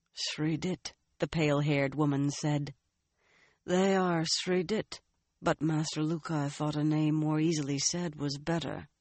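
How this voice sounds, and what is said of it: Drawling accent. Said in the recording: “That drawling accent was unmistakable.”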